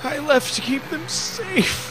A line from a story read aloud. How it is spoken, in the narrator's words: the man cried